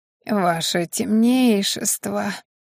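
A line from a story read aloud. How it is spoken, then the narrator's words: Moaning. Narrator (Russian): простонал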